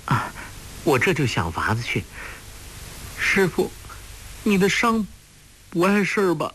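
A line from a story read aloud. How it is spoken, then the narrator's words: Tearful. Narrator (Chinese): 说着流下泪来，他遭此变故一直没有哭过，这时候泪水一流下来便再也忍耐不住，伏在洪七公的怀里放声大哭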